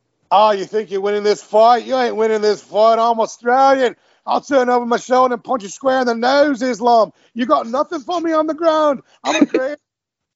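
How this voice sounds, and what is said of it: Australian accent, Volkanovski impression. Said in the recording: “you do a good Australian accent. So say pretend like you're Volkanovski ... Do do your impression ... yes, perfect”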